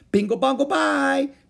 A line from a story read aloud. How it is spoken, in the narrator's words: they screamed at the tops of their voices